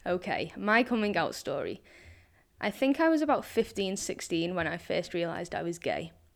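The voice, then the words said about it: Scouse accent. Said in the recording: “Scouse is bad enough”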